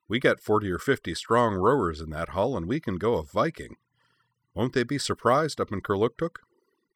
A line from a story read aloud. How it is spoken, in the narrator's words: Cora laughed